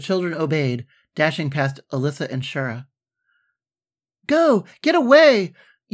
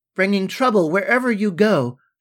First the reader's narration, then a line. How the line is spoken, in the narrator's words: shouted Rosedale from inside the mirror